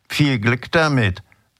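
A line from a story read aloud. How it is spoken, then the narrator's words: Hoarse mocking rattling voice. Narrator (German): sagte, und ihre heisere Stimme hatte nun einen spöttischen, scheppernden Ton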